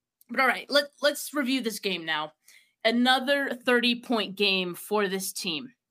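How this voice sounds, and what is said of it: Scratchy, strained-sounding voice. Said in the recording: “Teddy said I sound miserable. Is it that bad, guys? ... my throat was a little scratchy”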